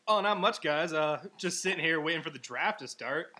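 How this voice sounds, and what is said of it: Put-on radio announcer voice. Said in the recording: “I love your radio voice.”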